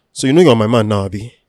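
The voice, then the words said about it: Nigerian accent, aggressive tone. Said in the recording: “Here is from a Nigerian man ... There's an aggression in it”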